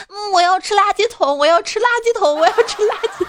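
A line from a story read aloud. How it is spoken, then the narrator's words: Loud clamoring. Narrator (Chinese): 他在人群中大声嚷嚷的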